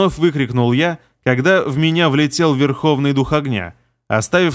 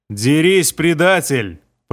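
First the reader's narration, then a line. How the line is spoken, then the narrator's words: Growling. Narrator (Russian): прорычал Алмис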